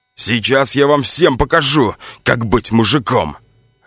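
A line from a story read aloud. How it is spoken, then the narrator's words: Barked. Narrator (Russian): рявкнул Иванов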